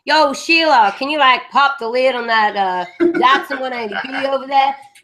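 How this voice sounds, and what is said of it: Exaggerated mock Australian accent. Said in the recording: “how badly any studio seems to do the Australian accent ... it's either very exaggerated ... we have to sound like we're a bunch of inbred bogans”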